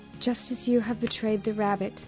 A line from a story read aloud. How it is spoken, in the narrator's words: rat responded sadly